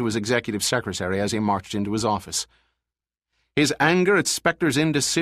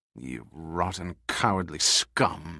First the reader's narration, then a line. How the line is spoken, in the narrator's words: Morton hissed at seeing Spectre flee for his life without the least concern for the 1,100 souls he left behind